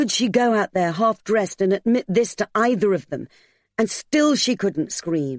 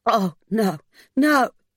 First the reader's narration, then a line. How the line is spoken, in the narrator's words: her voice cracked